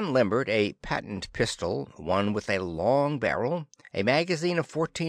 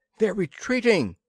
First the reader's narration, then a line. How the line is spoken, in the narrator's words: she cried